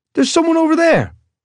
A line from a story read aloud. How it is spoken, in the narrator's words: shouted